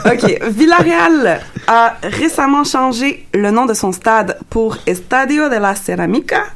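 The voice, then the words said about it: Exaggerated Spanish accent on names. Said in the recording (French): “Arrête de te moquer de mon accent espagnol.”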